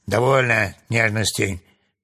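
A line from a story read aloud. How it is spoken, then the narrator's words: Rough shout. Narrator (Russian): грубо закричал Урфин Джюс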